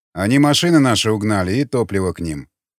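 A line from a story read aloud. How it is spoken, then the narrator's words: Plain. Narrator (Russian): ответил варяг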